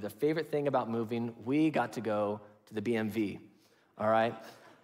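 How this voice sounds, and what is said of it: Sarcastic tone. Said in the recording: “saying that sarcastically”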